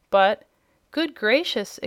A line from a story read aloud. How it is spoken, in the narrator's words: exclaimed the surprised Jimfred